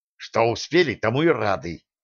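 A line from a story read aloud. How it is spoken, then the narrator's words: Angry snap. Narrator (Russian): Зло огрызнулся Николай Сергеевич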